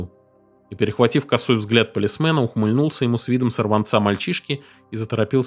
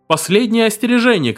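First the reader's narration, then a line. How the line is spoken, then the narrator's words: Shouted warning. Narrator (Russian): крикнул Дерг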